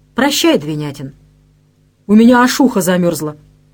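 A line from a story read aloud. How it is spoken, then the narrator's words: Icy cold tone. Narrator (Russian): Она ответила, сказала непередаваемо холодным таким тоном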